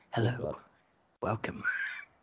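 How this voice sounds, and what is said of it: Sinister, seductive radio announcer voice. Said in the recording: “in my radio voice. ... it's sinister. I don't like it. It's a very sinister voice. ... I describe it sexual. ... your professional radio voice”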